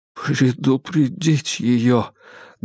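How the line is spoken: Muffled repeat. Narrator (Russian): глухо повторил Адамс

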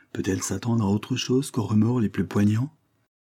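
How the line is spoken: Gentle reply. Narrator (French): répliqua doucement Madame Hare

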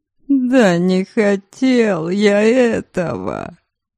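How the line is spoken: Tearful declaration. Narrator (Russian): плачущим голосом заявил он

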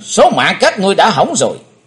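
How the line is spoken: Loud shout. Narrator (Vietnamese): Chí Tôn thét lớn

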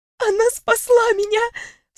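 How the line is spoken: Sniffling sob. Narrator (Russian): всхлипнула носом девушка

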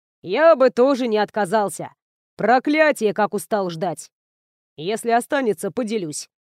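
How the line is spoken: Smirking grunt. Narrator (Russian): хмыкнул Эйнар

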